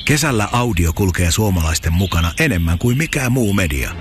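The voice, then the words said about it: Whispering voice. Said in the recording (Finnish): “Psst ... Kesäkuiskaaja”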